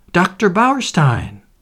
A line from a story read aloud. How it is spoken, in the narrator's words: exclaimed Cynthia